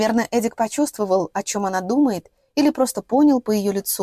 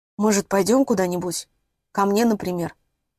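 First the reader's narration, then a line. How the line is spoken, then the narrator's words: Hoarse question. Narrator (Russian): хрипло спросил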